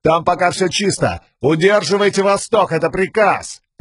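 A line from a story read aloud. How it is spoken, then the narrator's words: Messenger shouting. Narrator (Russian): Гонец прокричал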